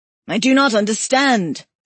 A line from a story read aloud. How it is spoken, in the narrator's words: Smith shouted